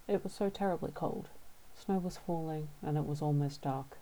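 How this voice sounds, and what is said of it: Australian accent. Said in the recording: “in my Australian accent”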